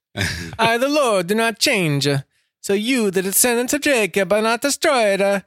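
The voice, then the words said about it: Put-on Italian accent. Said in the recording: “Can you do it in an Italian accent, though?”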